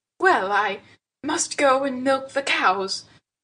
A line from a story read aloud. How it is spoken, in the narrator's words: gasped Louisa, rather glad to make her escape